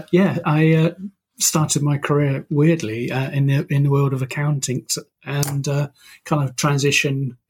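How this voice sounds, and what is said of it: British accent. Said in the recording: “It's not a very Canadian accent I'm picking up. ... I'm very British.”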